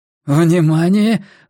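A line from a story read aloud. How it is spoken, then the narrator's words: Exclaiming. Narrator (Russian): воскликнул Делакруа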